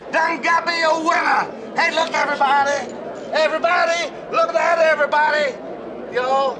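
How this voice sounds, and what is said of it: Comedy Texan accent. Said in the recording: “the obligatory comedy Texan there ... has a Texan accent.”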